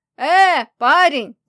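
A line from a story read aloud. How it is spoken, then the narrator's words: Distant shout. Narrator (Russian): закричал издалека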